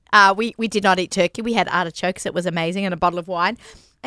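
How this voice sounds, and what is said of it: Foreign accent in English. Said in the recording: “I just hit my 25th anniversary in America... Still have the accent.”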